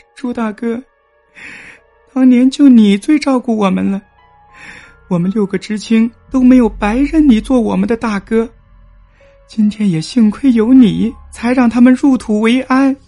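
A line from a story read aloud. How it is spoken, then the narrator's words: Emotional, crying. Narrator (Chinese): 激动的哭道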